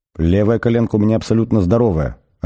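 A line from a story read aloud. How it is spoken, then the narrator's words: Plain. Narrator (Russian): ответила Фенчерч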